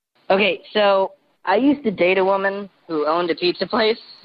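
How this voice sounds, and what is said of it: Voice disguised by voice changer. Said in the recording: “Voice changer is on.”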